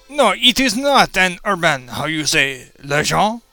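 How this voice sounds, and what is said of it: Put-on French accent, spider character. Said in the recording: “We spiders, with our surprisingly French accents”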